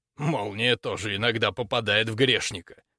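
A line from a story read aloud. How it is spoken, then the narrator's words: Wry snort. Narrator (Russian): хмыкнул он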